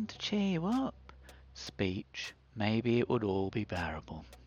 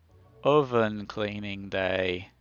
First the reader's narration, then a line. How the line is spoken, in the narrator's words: she groaned